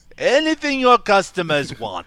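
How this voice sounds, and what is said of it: Put-on German accent. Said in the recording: “That's my German accent. Right, pretty spot on, actually. ... Pretty perfect.”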